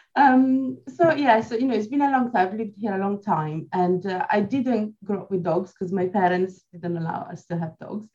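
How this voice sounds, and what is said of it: Swiss Italian accent. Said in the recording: “I'm Swiss Italian ... the south of Switzerland, which is the Italian part ... you haven't lost that accent as a result of 18 years”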